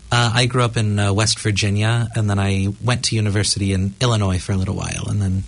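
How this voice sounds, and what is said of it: American accent with rolling R. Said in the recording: “I'm from the States, actually, if you can't tell by the accent... I thought you were from Tapanui or Gore. It's kind of similar rolling R thing.”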